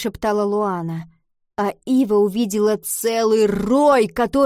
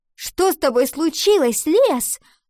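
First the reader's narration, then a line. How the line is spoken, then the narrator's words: Angry shout. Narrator (Russian): сердито выкрикнула она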